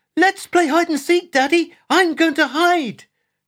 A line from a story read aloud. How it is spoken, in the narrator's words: could be heard shouting excitedly